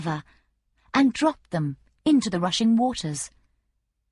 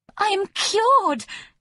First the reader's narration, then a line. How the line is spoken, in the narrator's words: she cried